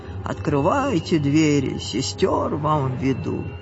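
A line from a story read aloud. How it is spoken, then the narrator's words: Cheerful speech. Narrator (Russian): весело так говорит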